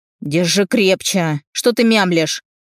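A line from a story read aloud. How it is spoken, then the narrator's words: Barked. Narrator (Russian): рявкнул он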